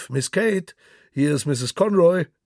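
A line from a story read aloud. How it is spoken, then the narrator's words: Calling out. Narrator (German): Lilly rief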